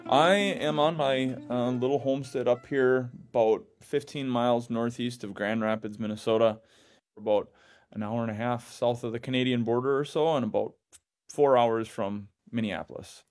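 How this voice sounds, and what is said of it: Thick warm Minnesotan accent. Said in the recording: “just a warm Minnesotan accent, like a quilt. ... Yeah, I got it thick.”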